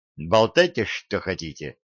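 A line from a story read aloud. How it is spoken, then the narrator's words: Curt remark. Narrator (Russian): бросил я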